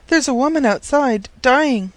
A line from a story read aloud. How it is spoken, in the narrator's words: she panted